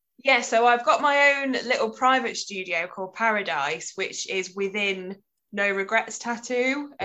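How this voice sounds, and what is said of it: Nottingham-area English accent. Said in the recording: “I'm from like near Nottingham way, so the accent throws off where I actually live.”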